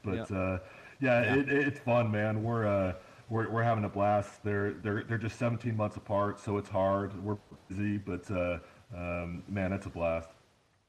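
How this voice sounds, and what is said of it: Sick-sounding voice. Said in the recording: “I woke up sicker than a dog this morning, and you can probably hear it in my voice”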